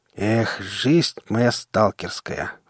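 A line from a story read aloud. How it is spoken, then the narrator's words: Sighing. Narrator (Russian): вздохнул Шрам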